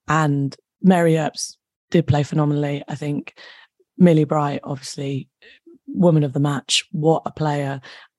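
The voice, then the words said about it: Hoarse, nearly lost voice. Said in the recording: “my voice is completely gone”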